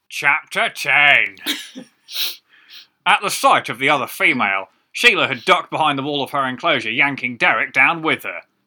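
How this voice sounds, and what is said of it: Nerdy Steve Coogan-style reading voice. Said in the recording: “I feel like I'm just going to Coogan this one ... it's universal nerd voice, really”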